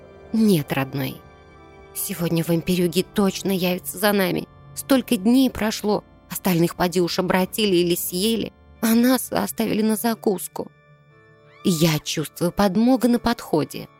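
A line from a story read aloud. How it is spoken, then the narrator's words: Girl softly interrupting. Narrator (Russian): девочка, мягко перебив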